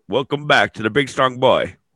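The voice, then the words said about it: Deliberately bad put-on British accent. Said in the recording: “That's my terrible British accent.”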